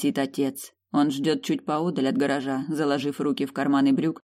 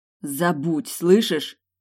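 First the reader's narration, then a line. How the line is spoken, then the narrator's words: Growling through teeth. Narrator (Russian): Рычу сквозь зубы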